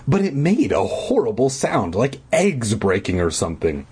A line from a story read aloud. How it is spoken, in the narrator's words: I exclaimed